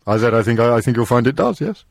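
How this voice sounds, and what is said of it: Slightly pompous put-on voice. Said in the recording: “putting on a slightly pompous voice ... you're very distorted ... you're very distant as well”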